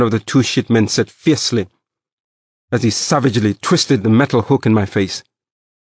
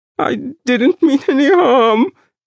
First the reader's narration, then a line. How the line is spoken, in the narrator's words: I begged